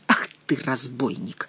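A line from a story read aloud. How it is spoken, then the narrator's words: Angry, through clenched teeth. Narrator (Russian): гневно процедил король сквозь плотно сжатые зубы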